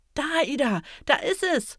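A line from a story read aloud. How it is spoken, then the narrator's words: Excited calling. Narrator (German): ruft er aufgeregt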